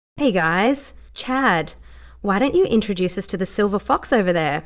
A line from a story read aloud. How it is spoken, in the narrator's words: She said smoothly